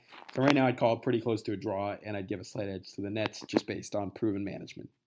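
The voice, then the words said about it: Strained voice, losing his voice. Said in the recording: “losing my voice.”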